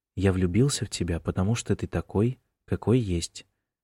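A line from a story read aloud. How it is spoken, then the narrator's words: Quiet and tender. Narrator (Russian): тихо сказал Джеймс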